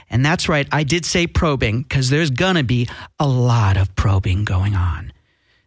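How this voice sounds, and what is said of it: Put-on sexy voice. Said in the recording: “This is my sexy voice. Is it turning you on?”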